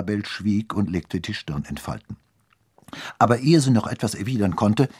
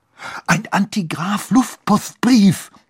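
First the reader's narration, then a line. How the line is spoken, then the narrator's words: Hissing excitedly. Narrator (German): fauchte Lorenz aufgeregt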